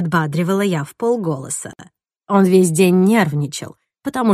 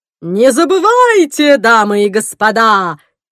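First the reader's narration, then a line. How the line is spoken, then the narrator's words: Booming roar. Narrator (Russian): взревел ведущий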